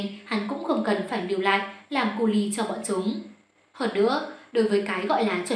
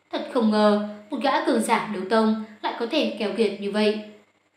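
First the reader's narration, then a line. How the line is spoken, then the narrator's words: Smiling. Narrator (Vietnamese): Tiểu Y Tiên mỉm cười nói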